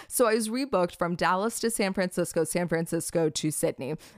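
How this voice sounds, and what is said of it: Deeper, rough voice after crying. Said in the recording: “My voice might be a little bit manly right now because, I've been through some shit and I was like sobbing a few hours ago”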